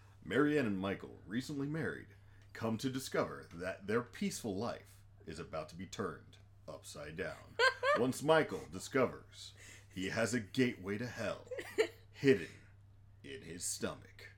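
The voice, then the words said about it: Movie announcer voice. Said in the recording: “announcer voice”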